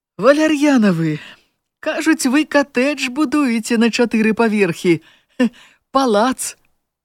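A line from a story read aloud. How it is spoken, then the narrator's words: Cheerful, loud, delighted. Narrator (Belarusian): Зусім іншым голасам весела і гучна, як вельмі ўзрадаваная, спытала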